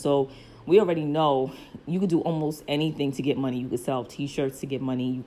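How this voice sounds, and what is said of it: Brooklyn accent. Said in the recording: “obviously I'm from Brooklyn. You probably hear my Brooklyn accent.”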